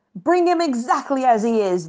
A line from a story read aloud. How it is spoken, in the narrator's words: the pirates barked